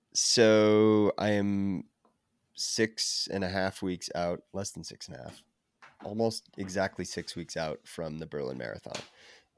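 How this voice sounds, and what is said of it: Deep, sick-sounding voice. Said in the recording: “can probably hear my voice, but my sexy deep voice here. I currently have COVID”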